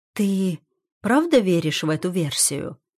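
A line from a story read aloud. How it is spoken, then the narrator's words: Calm, slightly trembling. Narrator (Russian): Спрашиваю спокойно, хотя голос чуть дрожит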